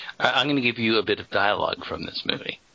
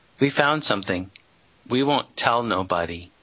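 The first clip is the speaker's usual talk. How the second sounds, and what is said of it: Put-on southern accent. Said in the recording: “It's a southern accent.”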